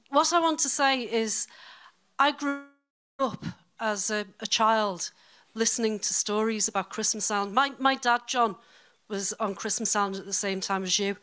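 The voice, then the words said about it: Liverpool Scouse accent. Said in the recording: “I'm originally from Liverpool, as you can probably hear from my accent,”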